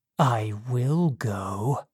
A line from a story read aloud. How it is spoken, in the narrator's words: he said quietly